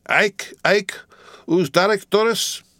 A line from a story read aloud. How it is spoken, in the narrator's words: roaring